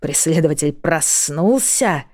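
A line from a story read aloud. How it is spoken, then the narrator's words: Acid hiss. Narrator (Russian): едко прошипела Лайза ветровому стеклу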